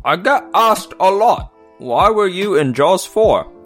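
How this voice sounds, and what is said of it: Michael Caine impression. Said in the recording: “Michael Caine ... It's me just doing a voice ... other than just saying I'm Michael Caine”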